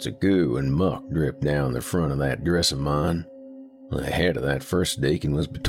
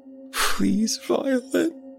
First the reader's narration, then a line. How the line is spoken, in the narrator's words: he whimpered